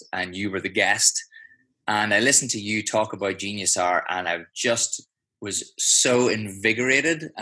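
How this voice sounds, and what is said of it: Irish accent. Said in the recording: “I can tell by the accent you're not from Australia ... accent sounds Irish”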